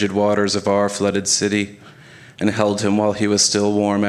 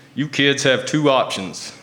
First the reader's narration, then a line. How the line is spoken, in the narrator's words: he said